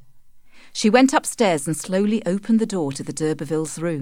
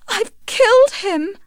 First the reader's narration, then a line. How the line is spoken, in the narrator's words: sobbed Tess